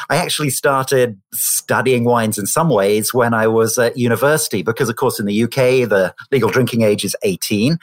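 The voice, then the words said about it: British accent. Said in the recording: “As you've probably worked out from my accent, I grew up in the United Kingdom in Oxford.”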